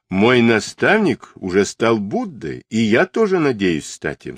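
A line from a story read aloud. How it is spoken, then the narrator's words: Plain. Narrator (Russian): сказал он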